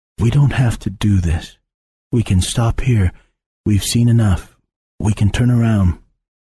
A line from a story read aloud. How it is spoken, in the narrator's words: he quietly said